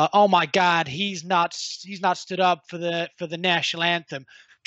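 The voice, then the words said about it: Put-on accent. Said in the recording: “Like the accent.”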